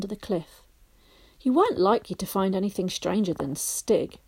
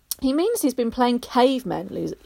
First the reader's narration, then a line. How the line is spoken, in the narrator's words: Lou exclaimed helpfully